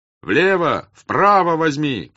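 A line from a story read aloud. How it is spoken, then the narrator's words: Shouting voices. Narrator (Russian): кричали ему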